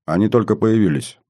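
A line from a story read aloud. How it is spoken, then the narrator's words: Calm reply. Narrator (Russian): спокойно ответил Дмитрий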